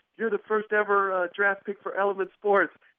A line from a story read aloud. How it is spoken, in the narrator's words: they yelled to the guy over the phone